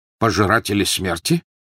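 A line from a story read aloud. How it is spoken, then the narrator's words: Sharp questioning. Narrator (Russian): резко переспросил Тед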